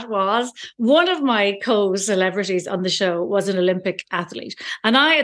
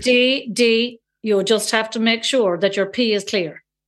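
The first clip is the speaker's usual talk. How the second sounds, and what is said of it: Put-on strong Cork Irish accent. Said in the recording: “he's from Cork, so he has a strong accent, so bear with me.”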